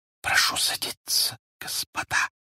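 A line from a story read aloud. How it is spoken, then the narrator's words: Muffled hissing whisper, woman. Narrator (Russian): Приглушенным до свистящего шепота голосом сказала женщина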